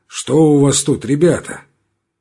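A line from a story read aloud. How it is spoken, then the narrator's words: Hoarse bass question. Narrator (Russian): он спросил сиплым басом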